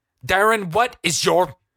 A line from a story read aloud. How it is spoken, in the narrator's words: he seethed